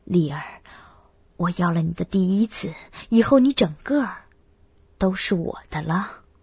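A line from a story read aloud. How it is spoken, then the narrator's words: Tender, gentle. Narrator (Chinese): 柔声道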